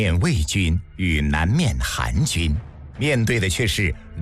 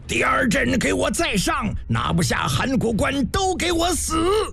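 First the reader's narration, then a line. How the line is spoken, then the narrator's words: Furious bellow. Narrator (Chinese): 司马尚面色铁青，想喊什么，硬是愣怔着喊不出来，憋得片刻跳脚大吼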